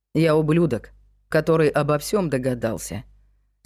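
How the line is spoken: Executioner's calm remark. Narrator (Russian): спокойно заметил палач

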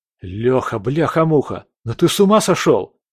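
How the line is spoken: Exclaiming. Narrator (Russian): воскликнул Андрей

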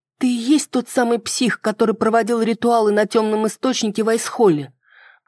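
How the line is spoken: Sigh, pitying tone. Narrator (Russian): Он вздохнул и ответил жалостливым тоном

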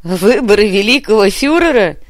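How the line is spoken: Laughing. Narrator (Russian): рассмеялась Милана

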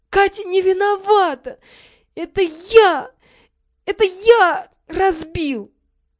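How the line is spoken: Sobbing, repeating. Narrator (Russian): сквозь рыдание повторял

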